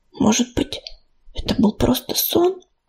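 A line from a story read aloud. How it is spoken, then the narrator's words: Strained near-whisper. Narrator (Russian): почти шепотом выдавила она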